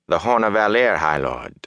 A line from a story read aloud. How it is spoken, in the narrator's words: Fane said smoothly, pleased